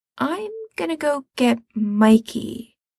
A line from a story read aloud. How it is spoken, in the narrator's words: he says slowly